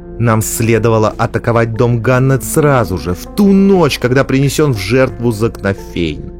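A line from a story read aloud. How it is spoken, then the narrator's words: Daring grumble. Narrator (Russian): отважилась проворчать она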